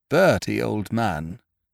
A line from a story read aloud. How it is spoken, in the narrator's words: said Biffy solemnly